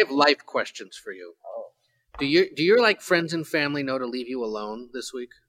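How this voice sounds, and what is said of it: Usual voice. Nothing is said of it.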